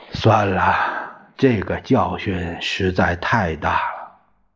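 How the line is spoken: Long dejected sigh. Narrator (Chinese): 陈怡长叹着，颓然坐下，说

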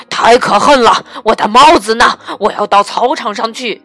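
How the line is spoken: Roaring, father bear. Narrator (Chinese): 熊爸爸咆哮了起来

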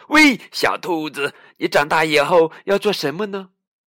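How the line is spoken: Calling out. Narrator (Chinese): 西蒙叫住他

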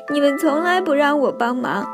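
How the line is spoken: Sobbing duck. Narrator (Chinese): 鸭子哭哭啼啼地说

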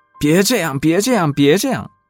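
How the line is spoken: Crying out. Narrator (Chinese): 的叫着

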